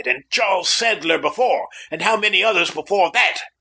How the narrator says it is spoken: I cried

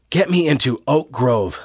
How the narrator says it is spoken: Lois gasped

